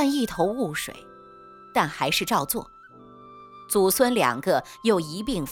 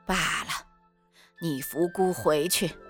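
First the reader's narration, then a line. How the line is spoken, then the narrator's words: Long sigh. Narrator (Chinese): 宁王舒耳长叹一声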